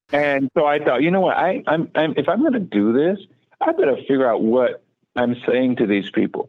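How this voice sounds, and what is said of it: Heavy Southern US accent. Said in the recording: “from South Carolina with a heavy, heavy Southern accent.”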